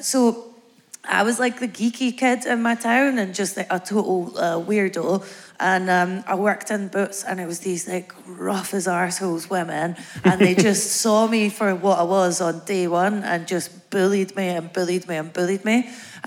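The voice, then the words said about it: Strong Scottish accent. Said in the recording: “my accent sounds strong to you ... Bathgate”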